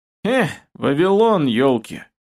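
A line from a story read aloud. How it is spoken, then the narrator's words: Cheerful snort. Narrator (Russian): весело хмыкнул Кастет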